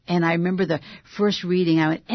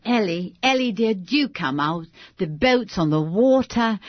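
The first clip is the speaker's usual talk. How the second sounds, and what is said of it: Put-on British accent. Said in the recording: “I had to do a British accent”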